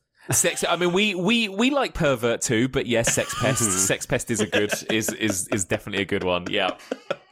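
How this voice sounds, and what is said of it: British accent. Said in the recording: “What do y'all call perverts in the UK? ... it just sounds so much better with your accent”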